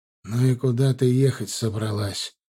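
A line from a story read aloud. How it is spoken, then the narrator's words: Tired question. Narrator (Russian): устало спросил он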